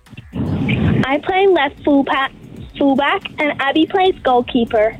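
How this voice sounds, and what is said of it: American Southern accent. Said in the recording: “You're American. Bit of an accent there. ... I'm from Louisiana. ... That accent really grew as the conversation went on.”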